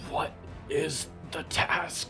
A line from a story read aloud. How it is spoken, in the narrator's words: growled